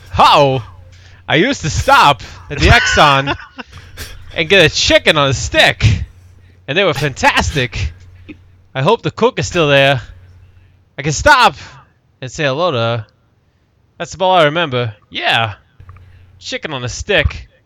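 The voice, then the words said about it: Christopher Walken doing Ed Orgeron. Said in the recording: “a artistic interpretation of Christopher Walken doing an Ed Orgeron impression, ... I gotta get into the Christopher Walken ness.”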